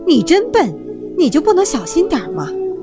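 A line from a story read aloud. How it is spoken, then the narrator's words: Yelling. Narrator (Chinese): 兔妈妈也叫了起来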